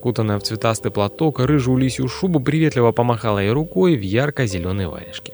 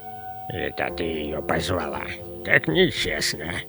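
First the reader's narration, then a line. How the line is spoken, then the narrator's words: Old man grumbling. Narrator (Russian): проворчал дед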